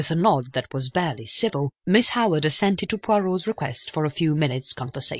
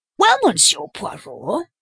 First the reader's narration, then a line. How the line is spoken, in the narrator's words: said Miss Howard impatiently